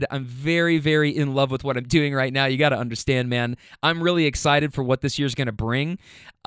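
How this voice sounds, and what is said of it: Very fast excited speech. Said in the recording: “I'm talking very fast, and it's because I'm very excited.”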